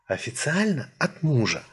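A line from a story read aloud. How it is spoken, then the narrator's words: Confiding whisper. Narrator (Russian): доверительно зашептала брюнетка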